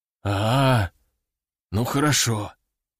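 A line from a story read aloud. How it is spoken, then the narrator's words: Exhaled relief. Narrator (Russian): выдохнул мужчина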